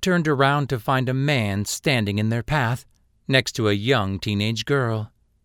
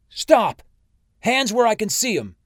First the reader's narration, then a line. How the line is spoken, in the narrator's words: Ashford shouted